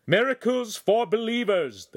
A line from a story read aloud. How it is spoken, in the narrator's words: the priest cried